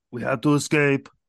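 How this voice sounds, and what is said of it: Imitates another person's voice. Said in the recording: “an Arnold impression ... it would kind of sound like this. It would sound like everyone else's.”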